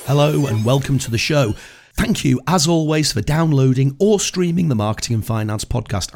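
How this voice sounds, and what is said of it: Extremely gravelly, sick-sounding voice. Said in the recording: “I'm recovering from a dose of man flu and my voice is still extremely gravelly. In fact, I sound like a Dalek with pneumonia”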